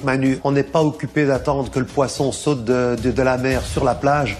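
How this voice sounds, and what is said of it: Accent of an old conservative man. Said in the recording (French): “Cet accent. ... Il a vraiment un accent de vieux de droite.”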